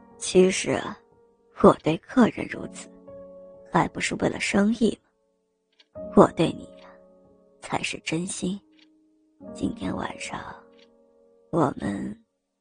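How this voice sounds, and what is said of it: Speaking in a low, quiet voice. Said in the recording (Chinese): “小声向刘小姐说道”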